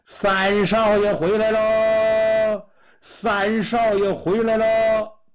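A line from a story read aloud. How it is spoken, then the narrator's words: Sudden loud shouting. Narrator (Chinese): 突然有人高声喊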